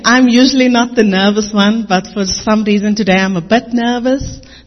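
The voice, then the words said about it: Speaks with a noticeable accent. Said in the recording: “if you don't get my accent, just say Amen”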